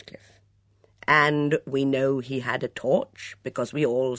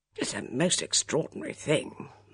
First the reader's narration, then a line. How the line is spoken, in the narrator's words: muttered Colonel Easterbrook